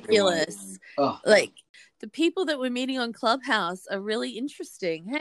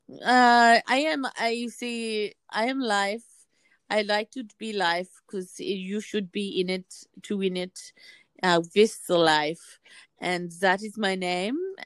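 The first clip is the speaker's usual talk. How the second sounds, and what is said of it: Imitates a Serbian/Austrian friend's voice. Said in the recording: “this is the person that I'm imitating, is our dear Serbian / Austrian friend”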